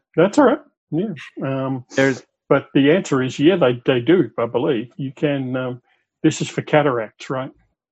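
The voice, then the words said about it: Australian-sounding accent. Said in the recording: “I haven't been in Australia for 20 some years ... I was just going by the accent.”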